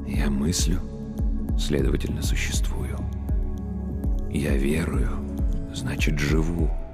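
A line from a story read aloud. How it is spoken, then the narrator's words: Priest's whisper. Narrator (Russian): прошептал священник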